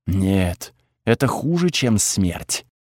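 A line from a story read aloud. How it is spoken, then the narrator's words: Whisper. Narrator (Russian): услышал я шепот Тхаги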